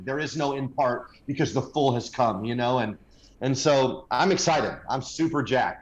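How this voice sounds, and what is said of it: American accent. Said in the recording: “I'm assuming you're in America somewhere with your accent”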